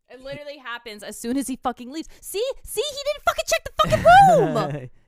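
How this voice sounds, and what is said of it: Very loud angry yelling. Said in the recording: “You did it so loud that the monitor protection came on ... stop yelling.”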